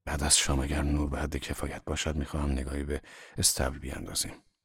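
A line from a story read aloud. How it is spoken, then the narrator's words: Hoarse voice. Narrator (Persian): آنگاه با صدایی گرفته به من گفت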